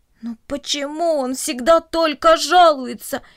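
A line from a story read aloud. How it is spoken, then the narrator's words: Groaned by plants. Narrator (Russian): простонали растения кукурузы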